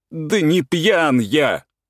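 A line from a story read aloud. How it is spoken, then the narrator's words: Furious tearful shout. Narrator (Russian): закричал Турбин бешено с красными полными слез глазами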